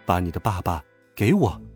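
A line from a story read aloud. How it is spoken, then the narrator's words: Cold. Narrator (Chinese): 陈静一冷冷的说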